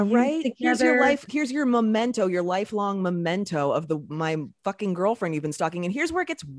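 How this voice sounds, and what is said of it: Usual voice. Nothing is said of it.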